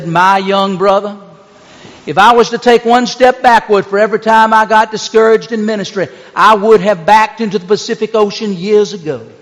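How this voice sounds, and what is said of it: Southern drawl. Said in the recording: “in his characteristic southern drawl”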